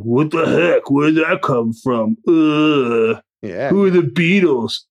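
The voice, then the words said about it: Imitates a Gen Z young person. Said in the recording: “Your Gen Z impression is almost as good as your Ben Mankiewicz impression.”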